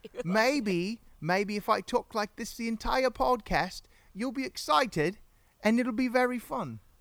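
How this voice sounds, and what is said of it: Put-on British accent. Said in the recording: “We could talk about a British accent ... Oh, she likes the British.”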